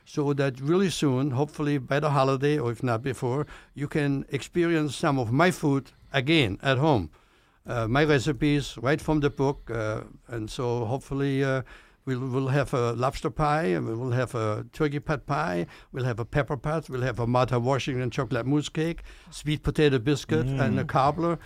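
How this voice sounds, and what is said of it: Speaks with a noticeable accent. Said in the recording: “It's just not my accent.”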